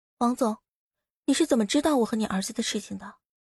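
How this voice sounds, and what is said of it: Quiet, hushed question. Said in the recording (Chinese): “小声的问道”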